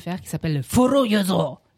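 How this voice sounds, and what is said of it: Mock Japanese accent on a word. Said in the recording (French): “Là, j'ai fait un accent japonais.”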